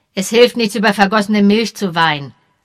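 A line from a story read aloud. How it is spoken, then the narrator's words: Said sharply. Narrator (German): sagte er scharf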